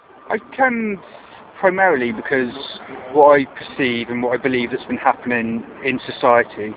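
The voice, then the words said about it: Hereford West Country English accent. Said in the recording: “it's not a King's Lynn accent ... it's a Hereford accent ... from Hereford in the West Country”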